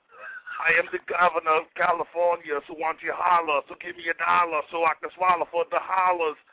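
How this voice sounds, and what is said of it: Arnold Schwarzenegger impression. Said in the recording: “Governor, Mr. Schwarzenegger ... Hey, Governor, can you freestyle with that voice you got?”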